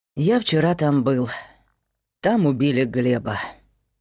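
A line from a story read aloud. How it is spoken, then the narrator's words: Sighing. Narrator (Russian): вздохнул Герман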